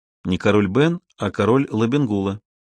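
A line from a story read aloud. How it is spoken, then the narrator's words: Gentle correction. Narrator (Russian): мягко поправила сестру Салина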